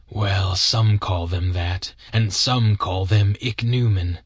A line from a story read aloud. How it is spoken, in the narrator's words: said the man